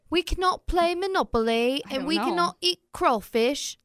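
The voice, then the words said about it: Put-on accent. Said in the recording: “That was a really good accent ... It was pretty good.”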